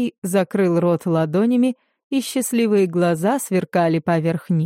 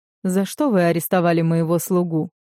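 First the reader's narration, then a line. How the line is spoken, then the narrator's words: Calm question. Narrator (Russian): спокойно спросил я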